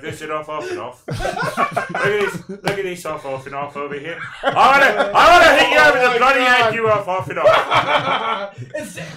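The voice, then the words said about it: Imitates another person's British voice. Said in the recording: “If Michael Caine was saying, he'd be like”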